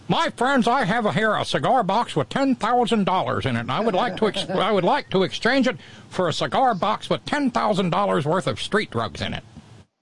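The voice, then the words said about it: Rush Limbaugh impression. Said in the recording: “your best Rush Limbaugh impression”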